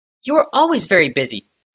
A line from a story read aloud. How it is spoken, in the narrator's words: snapped Kayla